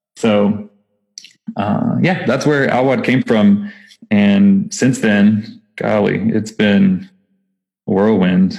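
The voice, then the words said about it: Texas accent. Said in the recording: “that's why I have my Texas accent again, because I'm still in Texas.”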